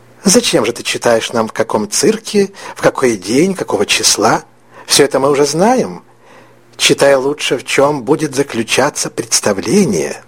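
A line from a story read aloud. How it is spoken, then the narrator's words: Quiet. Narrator (Russian): тихо произнесла тетя Соня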